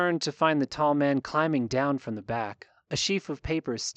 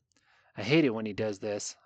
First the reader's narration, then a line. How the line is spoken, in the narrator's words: Anon mutters